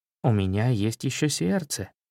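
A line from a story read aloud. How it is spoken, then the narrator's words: Soft gentle speech. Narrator (Russian): мягко говорил Меднобров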